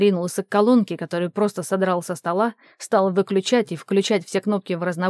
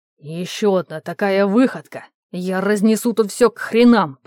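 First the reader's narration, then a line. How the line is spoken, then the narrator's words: Angry words through teeth. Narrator (Russian): процедил он, зло выплёвывая слова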